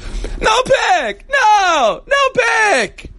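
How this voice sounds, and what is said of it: Jerry Seinfeld impression. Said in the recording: “I can do a Seinfeld.”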